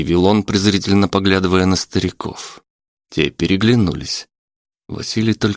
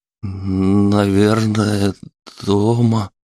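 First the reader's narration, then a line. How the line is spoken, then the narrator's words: Strained, forced out. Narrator (Russian): выдавил он из себя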